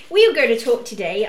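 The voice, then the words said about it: Put-on accent. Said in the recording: “I'll get rid of the accent.”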